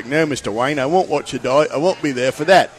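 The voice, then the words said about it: Bad Michael Caine impression, English accent. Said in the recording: “I do a really bad Michael Caine ... It's a bad Michael Caine. ... But it's a great English accent”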